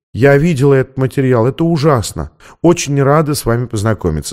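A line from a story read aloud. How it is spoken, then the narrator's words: Plain. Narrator (Russian): сказала Дорис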